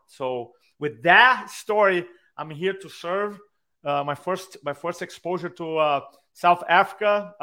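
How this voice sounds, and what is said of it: Brazilian-accented English. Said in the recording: “I have a Brazilian accent ... your accent's not too bad either”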